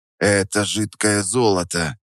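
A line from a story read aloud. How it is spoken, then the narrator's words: Whispered. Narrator (Russian): Прошептал я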